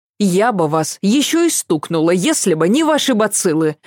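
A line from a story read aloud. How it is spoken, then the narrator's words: Snapping. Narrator (Russian): огрызнулась Ася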